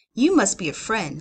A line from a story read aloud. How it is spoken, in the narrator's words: said Cordery